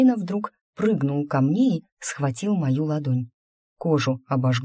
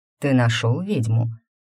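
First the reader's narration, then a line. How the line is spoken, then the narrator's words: Insinuating question. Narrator (Russian): вкрадчиво спросил он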